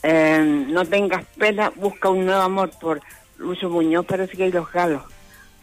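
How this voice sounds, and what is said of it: Hoarse, congested voice from a cold. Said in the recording (Spanish): “Yo estoy un poquito resfriada. ... Estoy afónica.”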